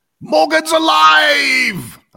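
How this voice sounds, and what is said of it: Brian Blessed impression. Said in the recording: “In a Brian Blessed voice”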